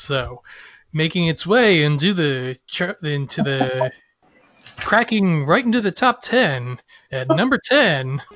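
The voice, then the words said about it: Casey Kasem impression. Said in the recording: “going to do a Casey Kasem impression”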